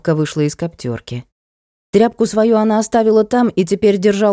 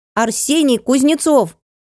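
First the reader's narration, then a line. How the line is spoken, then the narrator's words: Ringing shout. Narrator (Russian): Звонким голосом выкрикнул Сенька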